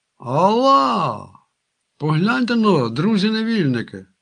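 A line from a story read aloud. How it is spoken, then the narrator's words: Sudden surprised child's exclamation. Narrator (Ukrainian): вигукнув раптом здивований малюк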